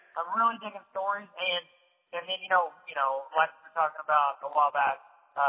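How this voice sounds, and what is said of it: Usual voice. Nothing is said of it.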